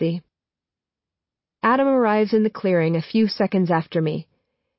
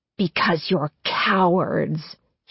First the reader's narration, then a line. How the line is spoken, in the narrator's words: she hisses